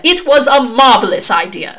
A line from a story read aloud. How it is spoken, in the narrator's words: snapped Aziraphale